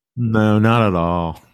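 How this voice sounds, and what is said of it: Sarcastic deadpan reply. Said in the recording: “I'm just being sarcastic.”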